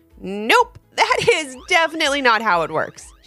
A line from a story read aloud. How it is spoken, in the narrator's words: said with a laugh